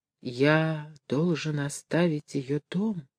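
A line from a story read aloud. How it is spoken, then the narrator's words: Horrified whisper. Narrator (Russian): прошептал он с ужасом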